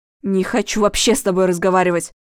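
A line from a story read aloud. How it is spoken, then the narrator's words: Irritated. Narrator (Russian): раздраженно сказал Денис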